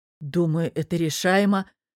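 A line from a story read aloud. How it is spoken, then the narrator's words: Relieved exhale. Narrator (Russian): с облегчением выдохнул я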